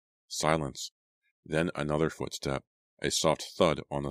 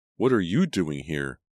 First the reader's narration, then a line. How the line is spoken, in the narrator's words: I cried